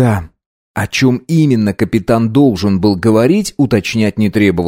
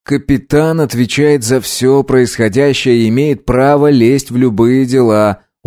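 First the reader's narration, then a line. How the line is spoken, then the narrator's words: Gloomy, dejected. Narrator (Russian): уныло ответил Вагнер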